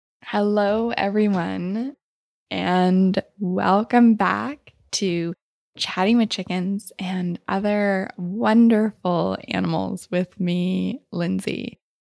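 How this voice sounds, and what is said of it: Smiling, laughing voice. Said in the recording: “If you can't already tell it in my voice, I'm smiling ear to ear, and I'm already laughing”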